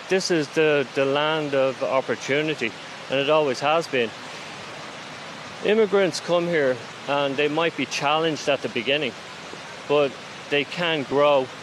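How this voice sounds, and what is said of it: Slight Irish accent. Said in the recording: “your slight accent, ... you're not a native New Yorker. ... You're from Dublin.”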